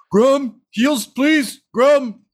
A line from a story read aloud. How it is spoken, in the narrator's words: he just yells